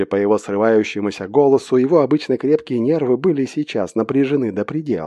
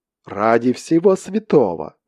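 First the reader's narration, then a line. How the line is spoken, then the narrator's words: Exclamation. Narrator (Russian): воскликнул Натол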